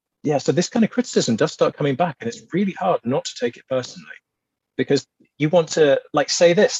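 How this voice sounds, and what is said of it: Southern English, posh-sounding accent. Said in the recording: “I certainly am not upper class by any stretch, regardless of my accent. ... the way we sound, the way we naturally speak ... we don't have a regional accent from the North”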